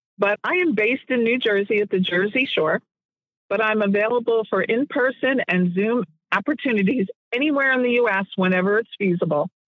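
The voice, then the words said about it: Froggy, hoarse voice. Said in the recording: “my voice being a little froggy this morning ... today my voice has been kind of froggy”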